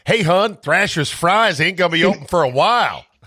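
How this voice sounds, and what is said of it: Put-on Baltimore accent. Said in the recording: “Enough with the Baltimore accent. ... Not good.”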